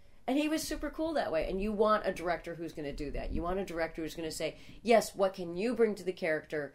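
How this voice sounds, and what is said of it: Usual voice. Nothing is said of it.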